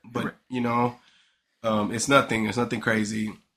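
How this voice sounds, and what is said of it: Scratchy sick voice. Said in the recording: “my voice is going to be a little scratchy”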